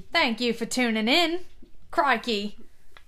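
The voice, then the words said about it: Put-on Australian accent. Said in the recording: “I was going for a British. You went for more of an Australian.”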